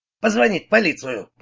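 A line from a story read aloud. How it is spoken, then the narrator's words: Grumbling. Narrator (Russian): пробурчал он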